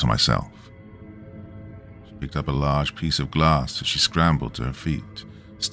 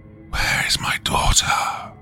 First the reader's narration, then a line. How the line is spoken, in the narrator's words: she hissed